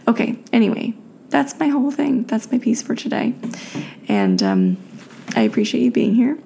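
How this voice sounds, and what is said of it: Slightly raspy, tired voice. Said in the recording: “know my voice is a little raspy because, again, it's late and I'm tired”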